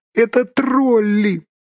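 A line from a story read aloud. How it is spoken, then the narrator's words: Squeak. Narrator (Russian): пискнул Бильбо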